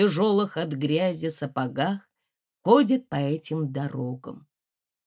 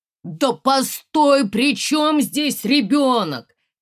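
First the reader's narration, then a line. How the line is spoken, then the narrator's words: Shouting. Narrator (Russian): кричал он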